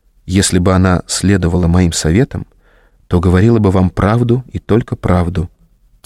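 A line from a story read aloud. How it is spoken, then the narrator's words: Quiet and serious. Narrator (Russian): тихо и серьезно произнесла Регина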